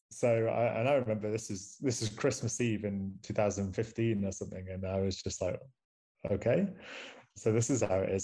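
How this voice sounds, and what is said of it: Manchester English accent. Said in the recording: “I'm from Manchester. ... I know my accent too.”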